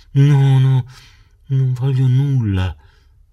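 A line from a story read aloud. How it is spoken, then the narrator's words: Weak, drowsy voice. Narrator (Italian): rispose quella con voce fiacca e come sonnolenta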